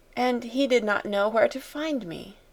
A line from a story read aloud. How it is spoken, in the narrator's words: murmured Sarah